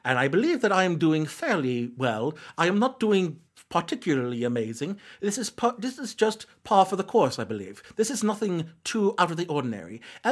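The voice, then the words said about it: Put-on British accent. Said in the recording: “her British accent is somehow worse than my British. This is me trying to do a British accent.”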